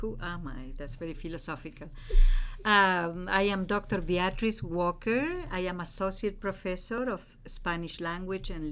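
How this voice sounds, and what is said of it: Sweet Uruguayan Spanish accent. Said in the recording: “She is originally from Uruguay, Montevideo, and her accent is so intoxicating and so sweet”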